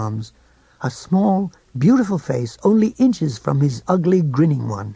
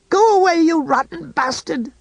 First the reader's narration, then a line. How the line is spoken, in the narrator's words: she screamed